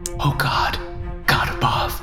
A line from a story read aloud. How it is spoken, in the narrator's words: I whispered